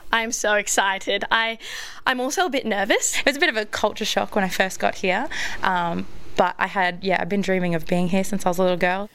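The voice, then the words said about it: Australian English accent. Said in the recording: “a real Aussie flavour ... The accent... not so French.”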